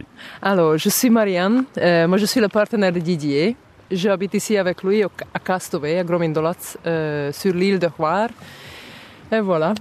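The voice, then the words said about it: Charming Hungarian accent in French. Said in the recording (French): “Vous avez un charmant accent, il vient d'où ? ... Moi je suis hongroise par origine”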